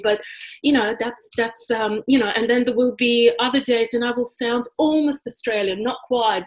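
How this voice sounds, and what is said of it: Heavily accented English. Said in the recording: “I was painfully aware of my accent... this accent is so heavy... I'm not passing today... the heavier accented English”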